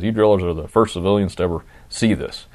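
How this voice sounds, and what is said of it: Imitates another person's voice. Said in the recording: “pretty good Billy Bob impression.”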